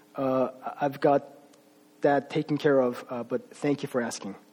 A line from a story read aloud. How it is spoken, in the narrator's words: in a much quieter voice, he said